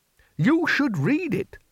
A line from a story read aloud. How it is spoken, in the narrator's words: said the Bursar, still happily living in the Valley of the Dried Frogs